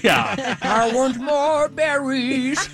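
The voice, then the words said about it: Imitates another person's voice. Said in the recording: “your Adam Sandler impression?”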